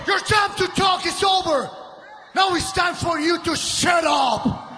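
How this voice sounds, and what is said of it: Heavily exaggerated Hispanic accent. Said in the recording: “Del Rio's accent is complete shit ... play up the brown man ... Way too out of hand with regards to his accent”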